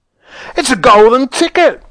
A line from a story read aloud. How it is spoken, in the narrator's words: screamed the shopkeeper